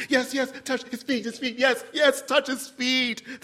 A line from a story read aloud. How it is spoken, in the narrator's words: the rest of the pilgrims cried